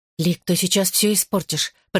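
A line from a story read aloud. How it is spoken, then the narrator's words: Hissed. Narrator (Russian): прошипела Рос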